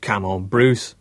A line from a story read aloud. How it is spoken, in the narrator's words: laughed Wally